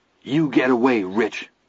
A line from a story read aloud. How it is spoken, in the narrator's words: he said in a trembling voice